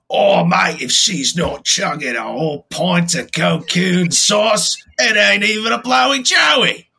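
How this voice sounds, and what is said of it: Put-on Australian accent. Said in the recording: “It's going to be Australian, but I don't know how it came out”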